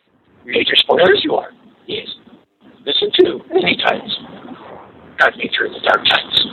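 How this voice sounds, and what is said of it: Yoda character voice impression. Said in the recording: “your best Yoda impression ... here's the best Yoda I can dig up”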